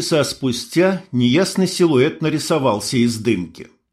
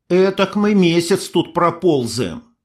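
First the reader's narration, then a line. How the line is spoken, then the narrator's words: Grumbling mutter. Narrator (Russian): буркнула Ксюха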